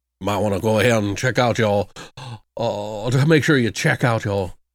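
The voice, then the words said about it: Badly done imitated character accent. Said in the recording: “It's horrible accent.”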